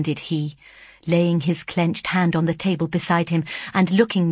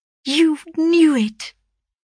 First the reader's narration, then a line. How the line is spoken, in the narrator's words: cried he with bitter vehemence